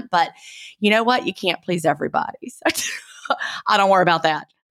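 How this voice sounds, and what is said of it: Southern US accent. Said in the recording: “how much she hated my Southern accent ... not everyone loves a Southern accent,”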